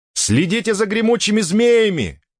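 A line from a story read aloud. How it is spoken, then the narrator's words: Shouted. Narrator (Russian): крикнула Кармен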